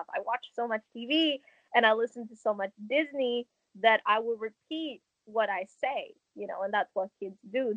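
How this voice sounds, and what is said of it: Fluent English with Hong Kong accent. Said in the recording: “this weird accent that, sure, it's fluent, you can understand it, but there's also a bit of a brokenness to it, which is coming from the Hong Kong side of it.”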